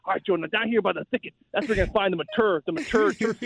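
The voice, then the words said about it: Exaggerated rural Hoosier redneck accent. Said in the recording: “goes full Hoosier ... talking like a redneck”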